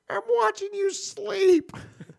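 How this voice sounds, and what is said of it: Ridiculous imitation of another person's voice. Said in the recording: “that ridiculous voice ... Can you do the ridiculous voice that he does? ... That's actually pretty good. ... his voice is ridiculous. Because he sounds like a little ... a little shit.”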